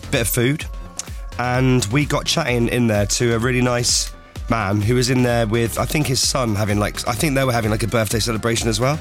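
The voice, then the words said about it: Strained voice, sounds off. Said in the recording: “How come I sound worse today than I did yesterday? ... You need to go on voice rest ... my voice is off. ... It does sound like you were singing along massively to that Mumford & Sons song. ... And now you've got that voice.”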